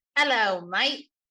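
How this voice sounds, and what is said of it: Put-on British accent. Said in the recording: “Don't try to put a British accent on ... you can drop that silly accent.”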